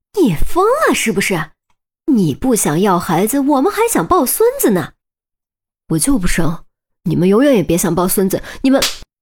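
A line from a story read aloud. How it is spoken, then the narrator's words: Frantic, cracking voice, cut off. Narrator (Chinese): 于冰也是急了，嗓音都有点破音，却还没说完就被啪的一声打断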